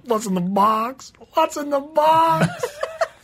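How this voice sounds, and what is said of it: Impression of a famous movie line. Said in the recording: “you do a great impression of what was said afterwards”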